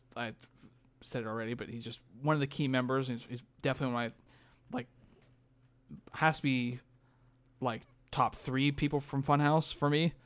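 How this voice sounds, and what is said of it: Strained, fading voice. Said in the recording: “It might sound like I'm getting choked up. I think I'm just losing my voice from talking for an hour.”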